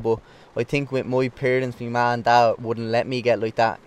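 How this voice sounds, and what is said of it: Dublin Irish accent. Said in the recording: “you haven't lost your Dublin accent anyway”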